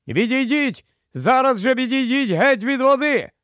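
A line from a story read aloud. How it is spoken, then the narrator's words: Sudden shout. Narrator (Ukrainian): Едмунд, випадково зиркнувши на свої черевики, раптом закричав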